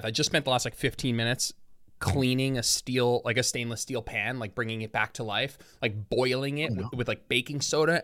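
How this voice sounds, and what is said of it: Out of breath, breathless speech. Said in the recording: “I'm like out of breath and like sweating right now... I'm like out of breath... I'm going to catch my breath for a sec.”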